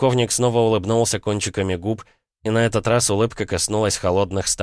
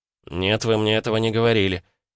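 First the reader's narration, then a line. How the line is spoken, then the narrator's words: Through gritted teeth. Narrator (Russian): процедил я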